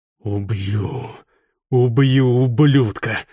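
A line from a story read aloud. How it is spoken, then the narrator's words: Growl through clenched teeth. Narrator (Russian): зарычал сквозь сжатые зубы Ниджай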